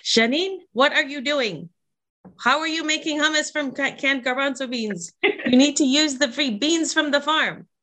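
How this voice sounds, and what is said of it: Imitated Lebanese accent. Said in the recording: “in her Lebanese accent, which I can try to do, but don't do very well”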